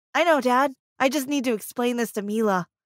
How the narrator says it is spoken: said

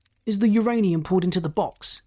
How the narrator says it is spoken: He barked sharply

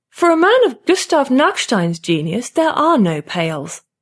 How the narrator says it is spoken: Lotta says haughtily

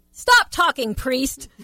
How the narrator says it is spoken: said so loudly

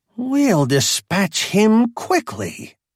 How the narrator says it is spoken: he hissed

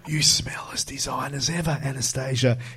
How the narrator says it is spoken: he whispers

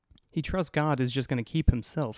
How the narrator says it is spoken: says

